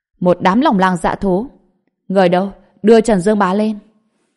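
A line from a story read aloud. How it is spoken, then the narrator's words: Cold laugh, loud speech. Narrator (Vietnamese): Trần Bình lạnh giọng cười một tiếng, lớn tiếng nói với đám người đang chỉ trích và mắng mỏ mình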